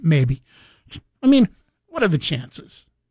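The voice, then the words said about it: Sarcastic tone. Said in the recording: “I'm being sarcastic, by the way ... I was being sarcastic.”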